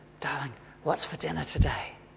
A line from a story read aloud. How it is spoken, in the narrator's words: whisper in her ear